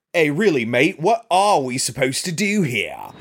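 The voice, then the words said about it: Bad fake British/Australian accent. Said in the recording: “real bad British accent ... that's a really bad British accent ... he's supposed to be Australian ... It is a very bad accent.”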